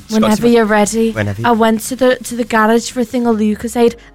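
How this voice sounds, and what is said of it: Imitation with Liverpool-sounding accent. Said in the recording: “That was an interesting accent. Didn't know Cheryl Cole was from Liverpool.”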